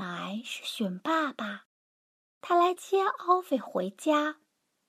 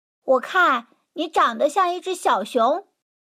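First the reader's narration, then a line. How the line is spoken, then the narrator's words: Rough loud voice. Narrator (Chinese): 一个粗暴的声音大声说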